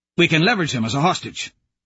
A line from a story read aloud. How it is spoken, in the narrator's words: Fichtner says quickly